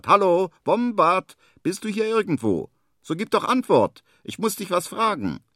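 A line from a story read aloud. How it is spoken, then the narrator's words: Loud call. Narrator (German): ruft er laut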